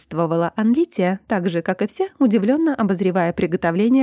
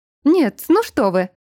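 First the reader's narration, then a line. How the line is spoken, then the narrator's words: Exclaimed. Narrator (Russian): воскликнула травница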